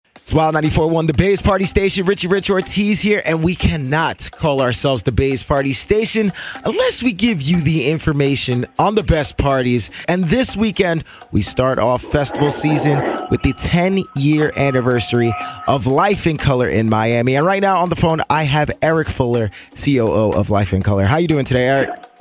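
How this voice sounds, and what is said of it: Polished radio announcer voice. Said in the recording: “you have an amazing radio voice”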